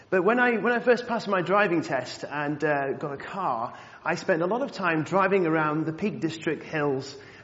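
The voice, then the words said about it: Northwest English accent, Cheshire. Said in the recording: “I think my accent has changed over the years, but I'm actually from the northwest, from Cheshire, on the edge of the Peak District. ... I'm still the only person in the family left saying Bath and Grass”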